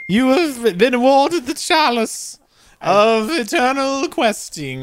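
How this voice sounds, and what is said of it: Put-on British accent. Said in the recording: “this ridiculous British accent”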